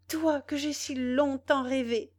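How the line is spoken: Exclamation. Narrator (French): s'écria Louise

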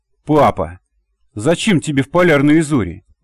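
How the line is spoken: Puzzled exclamation. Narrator (Russian): недоуменно воскликнула девушка

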